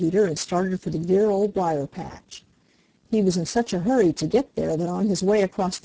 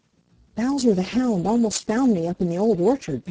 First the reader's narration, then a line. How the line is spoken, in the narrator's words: panted Peter